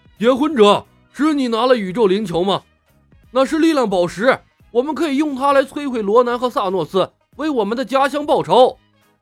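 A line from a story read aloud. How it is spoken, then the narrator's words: Loud shout. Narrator (Chinese): 德拉克斯高声喊道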